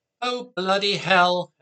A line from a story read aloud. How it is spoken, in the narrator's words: Anthea shouted